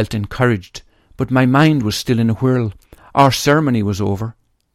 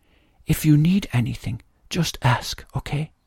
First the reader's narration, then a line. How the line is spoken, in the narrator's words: She whisper in my ear